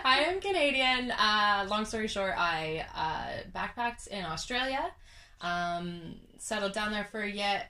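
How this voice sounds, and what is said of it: Canadian English accent. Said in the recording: “I'm Canadian. ... If you can't already tell by the accent.”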